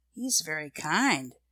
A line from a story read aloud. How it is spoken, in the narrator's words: said Nan in a low voice